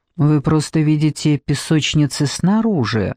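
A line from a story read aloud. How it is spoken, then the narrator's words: Calm reply. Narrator (Russian): спокойно ответил управляющий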